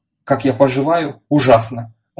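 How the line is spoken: Indignant tone. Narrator (Russian): возмущенным тоном рассказывать

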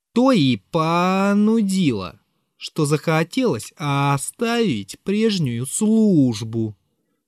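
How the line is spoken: Drawn out, barely controlled. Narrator (Russian): протянул я втрое больше, уже почти не владея собой

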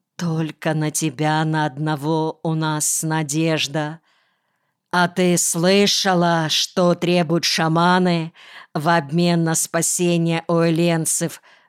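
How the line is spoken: Plain. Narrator (Russian): спросил Млакаран

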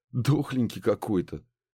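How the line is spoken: Smirking grunt. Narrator (Russian): хмыкнул Ларс

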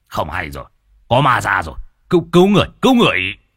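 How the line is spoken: Shouted. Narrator (Vietnamese): Lão nhị quát

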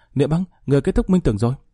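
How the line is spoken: Surprised exclamation. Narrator (Vietnamese): Long Linh kinh ngạc kêu lên

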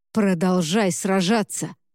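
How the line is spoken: Growling pastor. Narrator (Russian): прорычал пастор

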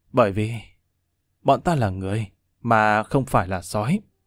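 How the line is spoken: Weary, quiet through gritted teeth. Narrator (Vietnamese): Lâm Văn Vinh uể oải thở dài, ánh mắt vô cùng nghiêm trang, cắn răng khẽ nói

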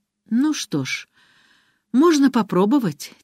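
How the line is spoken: Heavy sigh. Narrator (Russian): тяжело вздохнул он

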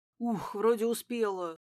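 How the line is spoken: Breathless exhale. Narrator (Russian): выдохнула я

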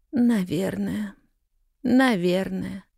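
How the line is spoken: Gloomy muttered reply. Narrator (Russian): уныло пробормотала в ответ Рут Кэррио

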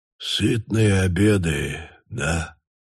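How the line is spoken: Quiet. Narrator (Russian): тихо повторил

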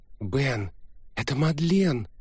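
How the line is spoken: Exclaiming. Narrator (Russian): воскликнула моя принцесса

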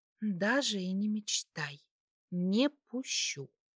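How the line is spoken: Broken whisper. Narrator (Russian): ответила она прерывистым шепотом

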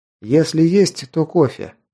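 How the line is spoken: Plain. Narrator (Russian): ответил

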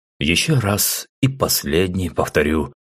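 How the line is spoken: Calm statement. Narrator (Russian): спокойно заявил Айзек

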